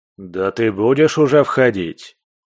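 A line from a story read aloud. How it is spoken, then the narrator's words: Impatient commanding bark. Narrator (Russian): Теряя терпение, рявкнул властный голос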